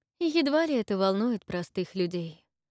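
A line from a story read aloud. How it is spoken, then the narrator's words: Sighing. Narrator (Russian): вздохнула Тесса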